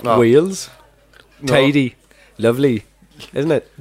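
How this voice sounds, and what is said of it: Put-on Welsh accent. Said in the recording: “Let's leave the accents behind”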